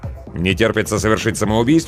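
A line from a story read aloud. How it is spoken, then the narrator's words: Grumbling. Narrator (Russian): пробурчал я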